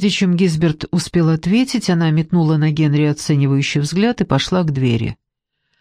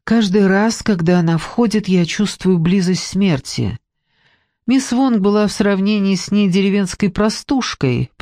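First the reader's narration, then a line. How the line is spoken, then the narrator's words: Said with a sigh. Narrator (Russian): произнес Фаш и вздохнул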